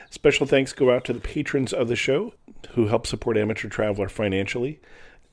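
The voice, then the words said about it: Sick, cold-affected voice. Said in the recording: “apologize for my voice. I came back from a trip to Greece ... with this cold ... I'm still recovering from that”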